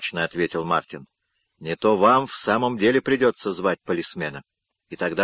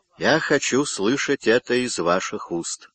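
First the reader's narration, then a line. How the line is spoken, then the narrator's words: Plain. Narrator (Russian): сказал он ей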